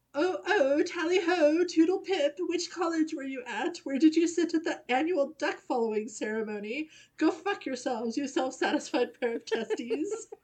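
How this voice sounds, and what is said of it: Put-on posh British accent. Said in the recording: “I can't do a British accent to save my life”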